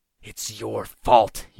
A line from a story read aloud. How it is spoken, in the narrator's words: grunted